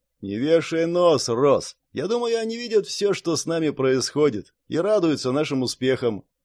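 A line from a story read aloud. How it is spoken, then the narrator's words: Deep bass voice. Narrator (Russian): Орсон пробасил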